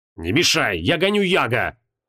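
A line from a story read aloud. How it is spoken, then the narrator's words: Growling. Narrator (Russian): прорычал Креол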